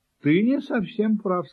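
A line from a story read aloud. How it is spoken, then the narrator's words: Plain, kitten. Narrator (Russian): сказал котенок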